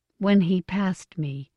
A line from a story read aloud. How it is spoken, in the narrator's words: she said in a low voice